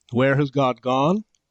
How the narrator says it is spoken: he cried

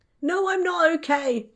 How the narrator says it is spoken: Tom shouted

